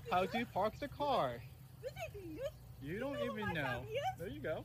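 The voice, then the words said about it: Terrible put-on Asian accent. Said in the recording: “It's a terrible accent. ... Terrible. Are you doing an Asian accent or Elmer Fudd? ... he's putting his tongue out.”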